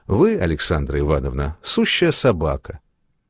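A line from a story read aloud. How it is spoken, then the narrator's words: Polite, calm voice. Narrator (Russian): Танечка вежливым голоском и так спокойно сказала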